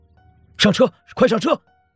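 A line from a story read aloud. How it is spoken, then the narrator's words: Shouting. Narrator (Chinese): 顾北冲着顾惜喊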